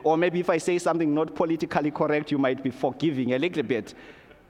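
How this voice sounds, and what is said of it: Zimbabwean accent. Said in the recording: “in case you misunderstand my accent, then you know I wasn't born and bred here. I came from another country ... I am from Zimbabwe.”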